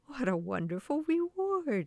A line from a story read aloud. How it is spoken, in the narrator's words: exclaimed the little old woman